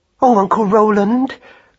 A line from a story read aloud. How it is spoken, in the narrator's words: cried Madeline joyfully